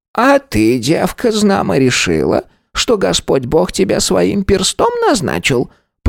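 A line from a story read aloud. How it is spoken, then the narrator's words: Creaky voice. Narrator (Russian): Проскрипела Агафья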